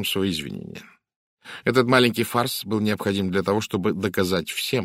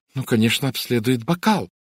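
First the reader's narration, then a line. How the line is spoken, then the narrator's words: Exclaimed. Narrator (Russian): воскликнула мисс Сатклифф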